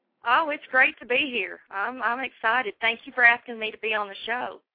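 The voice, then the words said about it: Arkansas country accent. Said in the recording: “that Arkansas accent, a true country girl”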